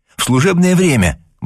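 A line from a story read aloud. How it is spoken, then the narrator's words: Exclaiming. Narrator (Russian): воскликнула она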